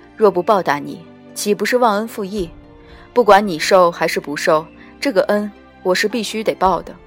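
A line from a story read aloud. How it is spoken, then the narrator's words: Calm faint smile. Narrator (Chinese): 淡淡一笑，道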